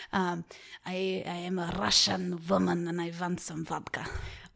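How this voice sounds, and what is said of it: Bad put-on Russian accent. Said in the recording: “I have a Russian accent that I can really only say one sentence ... That was very bad. Borderline offensive.”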